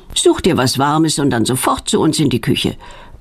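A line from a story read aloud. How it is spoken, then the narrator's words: Stern motherly command. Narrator (German): befiehlt Petronellas Mutter streng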